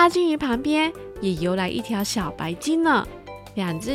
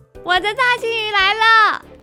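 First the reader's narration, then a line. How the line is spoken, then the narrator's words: Excited shout. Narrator (Chinese): 佩奇兴奋地大叫着说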